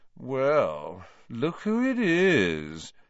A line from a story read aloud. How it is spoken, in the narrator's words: said Malfoy, in his usual lazy drawl